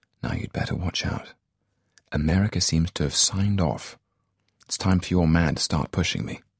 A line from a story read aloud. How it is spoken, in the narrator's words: Snowman said, softly, to Bond